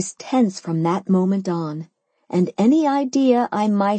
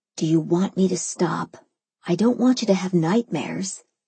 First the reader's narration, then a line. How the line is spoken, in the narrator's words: he whispered back